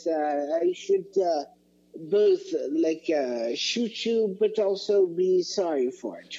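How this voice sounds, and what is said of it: Don Karnage impression. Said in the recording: “my favorite Don Carnage impression.”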